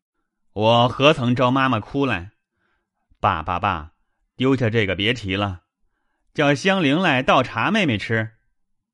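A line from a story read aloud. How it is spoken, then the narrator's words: Laughing after tears. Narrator (Chinese): 薛蟠忙收了泪，笑道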